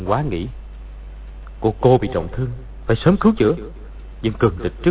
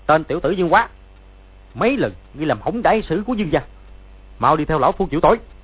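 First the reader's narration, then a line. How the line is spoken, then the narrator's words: Angry shout. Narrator (Vietnamese): quát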